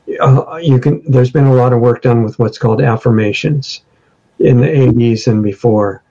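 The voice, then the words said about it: Worn-out, tired voice. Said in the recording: “my voice is worn out”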